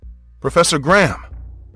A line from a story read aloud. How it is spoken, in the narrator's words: called out